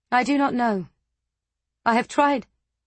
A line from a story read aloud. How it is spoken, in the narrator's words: her voice caught